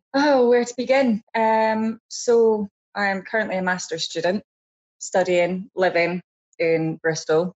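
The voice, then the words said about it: Edinburgh Scottish accent. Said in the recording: “Originally from Edinburgh ... That's where the accent's from.”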